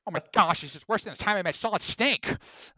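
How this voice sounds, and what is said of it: Cartoon character impression, Peter Griffin. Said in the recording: “That wasn't probably my best impression”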